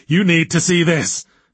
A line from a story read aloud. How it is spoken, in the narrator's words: he gasped